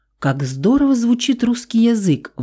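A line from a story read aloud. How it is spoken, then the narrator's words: Exclaiming from back seat. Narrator (Russian): воскликнула с заднего сиденья Моника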